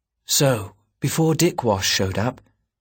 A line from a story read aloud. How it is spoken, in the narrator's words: murmured in her ear